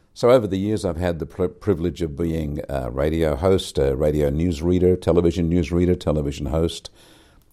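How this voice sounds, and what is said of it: Trained radio broadcaster voice. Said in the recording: “I had a voice that people identified as a radio voice, television voice”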